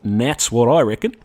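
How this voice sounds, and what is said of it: Attempted Australian accent. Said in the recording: “my attempt at an Australian accent”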